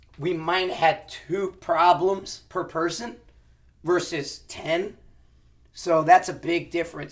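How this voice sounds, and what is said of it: Hoarse, worn-out voice. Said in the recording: “you can tell my voice is gone. It was classroom day today.”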